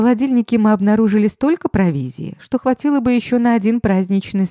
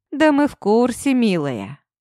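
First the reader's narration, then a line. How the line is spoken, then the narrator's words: Snort. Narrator (Russian): хмыкнул Демид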